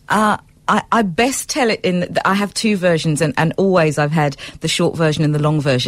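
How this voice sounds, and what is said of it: British-influenced South African accent. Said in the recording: “the accent, raised in the UK, but you are a South African.”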